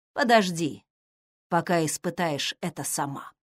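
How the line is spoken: Quiet. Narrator (Russian): добавил он тихо

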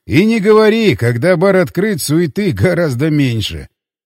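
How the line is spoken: Laughing. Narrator (Russian): Только и рассмеялся я

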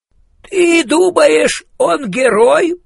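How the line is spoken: Hoarse, dazed rasp. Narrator (Russian): прохрипел Хэмиш стукнутый

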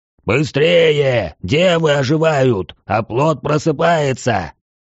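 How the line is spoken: Urgent yelling. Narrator (Russian): заорал Свечкин, подгоняя меня

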